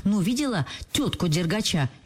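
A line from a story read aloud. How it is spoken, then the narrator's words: Cheerful shouting. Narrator (Russian): весело кричала Туся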